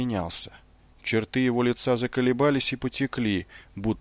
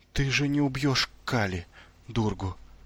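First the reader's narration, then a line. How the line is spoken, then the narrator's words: Choked, barely audible. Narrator (Russian): едва выдавила она в удушье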